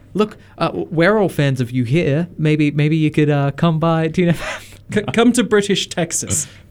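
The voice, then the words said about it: Put-on British accent. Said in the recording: “I'll do my best British accent.”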